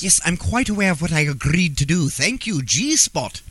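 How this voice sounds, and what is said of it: Fancy accent. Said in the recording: “Buckle up that fancy accent”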